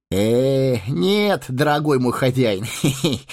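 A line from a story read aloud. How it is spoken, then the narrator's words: Giggling. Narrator (Russian): хихикнул он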